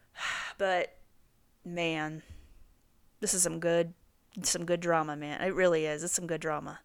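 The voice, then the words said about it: Strained, fading voice. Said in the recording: “My voice is going out here.”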